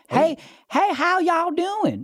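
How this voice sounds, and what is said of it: Southern twang. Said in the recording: “she was from Columbia, South Carolina ... She had a little twang to her”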